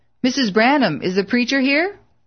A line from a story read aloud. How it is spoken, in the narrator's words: called out